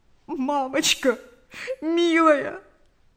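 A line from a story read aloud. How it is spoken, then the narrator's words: Sobbing. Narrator (Russian): рыдало сердце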